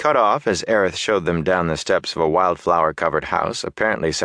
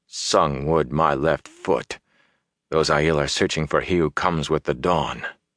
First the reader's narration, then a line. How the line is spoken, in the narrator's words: Perrin muttered